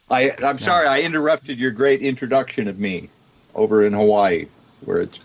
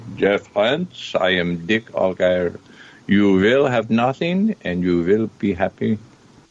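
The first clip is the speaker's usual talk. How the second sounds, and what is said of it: Menacing Bond villain voice. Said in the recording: “I should talk in a Bond villain voice after that.”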